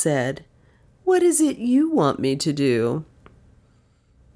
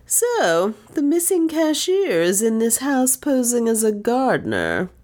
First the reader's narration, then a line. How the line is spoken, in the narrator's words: he said with a sneer in his tones